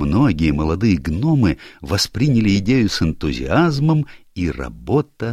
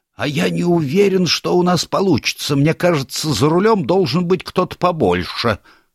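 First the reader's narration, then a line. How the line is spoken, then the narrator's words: Nervous elderly exclamation. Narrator (Russian): Один пожилой гном нервно воскликнул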